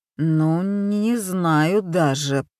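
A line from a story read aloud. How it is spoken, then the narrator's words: Mumbled. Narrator (Russian): промямлил Мамия-сан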